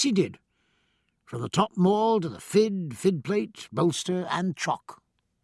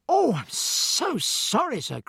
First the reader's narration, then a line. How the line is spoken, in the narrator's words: cried the boy in horror